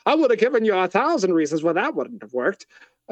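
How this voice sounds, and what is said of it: Adam West Batman impression, carnival-hawker style. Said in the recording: “Adam West's Batman ... that's not Adam West, but that's I guess my impression of him ... That's like a carnival hawker”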